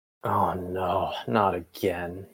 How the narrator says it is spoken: he moaned

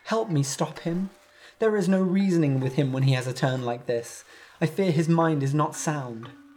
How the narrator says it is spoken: she begged Palamedes

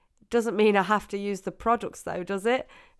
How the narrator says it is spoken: He laughed

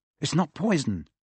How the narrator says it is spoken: said Harry anxiously

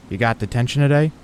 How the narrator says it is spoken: said

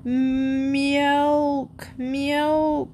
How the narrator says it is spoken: whined Lightfoot

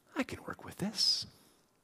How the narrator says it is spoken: to whisper into our ear

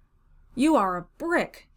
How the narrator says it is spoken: he cried next in a muffled voice

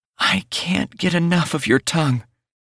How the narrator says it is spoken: Teeny moans

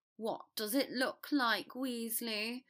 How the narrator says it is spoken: Draco asked impatiently, sneering at him

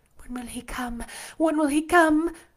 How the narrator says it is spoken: I cried inwardly

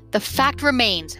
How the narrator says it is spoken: Mama said

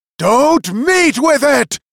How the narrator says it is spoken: shouted the magician after him

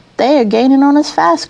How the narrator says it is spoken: cried the engine driver

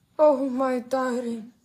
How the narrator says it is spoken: she murmured, and now the tears were really streaming down her cheeks

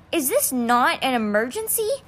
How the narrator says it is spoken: Constance snapped from the stairwell

